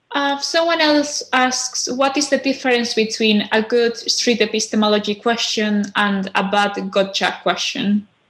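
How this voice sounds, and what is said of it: Spanish accent in English. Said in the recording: “From Spain. Clearly, my accent doesn't help here”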